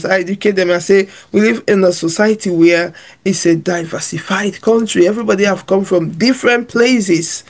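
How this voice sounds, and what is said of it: Speaker's own non-native accent. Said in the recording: “my accent. They laugh at some of my pronunciations ... I can't roll my tongue like yours”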